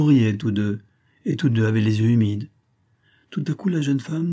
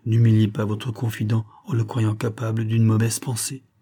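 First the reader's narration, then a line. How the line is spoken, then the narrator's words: Gentle speech. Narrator (French): fit doucement Hubert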